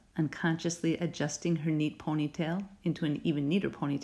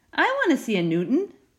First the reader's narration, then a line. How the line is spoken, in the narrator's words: exclaimed Lainey